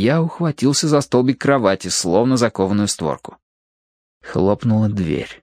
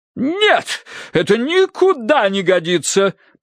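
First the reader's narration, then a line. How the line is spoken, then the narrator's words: Thundering woman. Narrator (Russian): прогремела миссис Меринг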